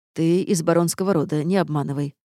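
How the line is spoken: Amused snort. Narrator (Russian): хмыкнул князь тьмы

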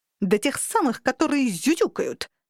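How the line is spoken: Sharp snapping bark. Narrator (Russian): рявкнула прирожденная язва

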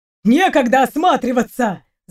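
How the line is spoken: Shouting. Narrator (Russian): закричал Дима, когда они только подбегали к месту

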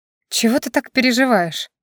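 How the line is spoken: Heavy exhaling. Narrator (Russian): тяжело выдохнула

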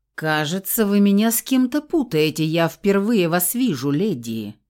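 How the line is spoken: Strained politeness, growling undertones. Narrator (Russian): Попытался быть вежливым Фауст, но недовольные рычащие нотки то и дело проскакивали в голосе

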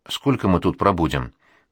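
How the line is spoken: Asking while chewing fast. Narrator (Russian): быстро-быстро жует и спрашивает

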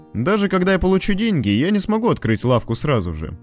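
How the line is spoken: Casual, hiding excitement. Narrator (Russian): Лоуренс, тщательно пытаясь скрыть свое возбуждение, небрежным тоном продолжил

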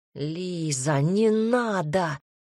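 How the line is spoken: Growling. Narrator (Russian): прорычал рядом горечь

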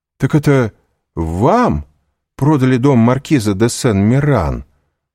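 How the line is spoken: Exclaiming. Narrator (Russian): воскликнул Вильфор

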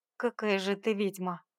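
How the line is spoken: Scoffing snort. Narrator (Russian): хмыкнул

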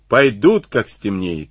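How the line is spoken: Plain. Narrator (Russian): ответил Ватнин

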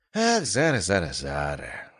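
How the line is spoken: Sigh of feigned regret. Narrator (Russian): вздохнула Аврора с показным сожалением

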